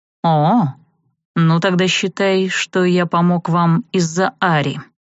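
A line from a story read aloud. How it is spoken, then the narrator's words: Through gritted teeth. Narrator (Russian): процедил Арт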